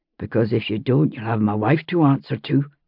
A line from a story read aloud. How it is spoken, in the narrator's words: he murmured